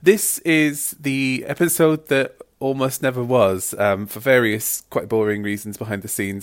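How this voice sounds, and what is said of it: Congested voice from a cold. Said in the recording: “As you can probably hear, I've got a bit of a cold”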